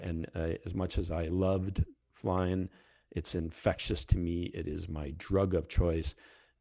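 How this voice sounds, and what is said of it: Heavy Canadian, Fargo-like accent. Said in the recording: “my accent is coming back very heavily these days... if you don't, down south, you don't understand my accent, go watch the movie Fargo and you'll figure me out”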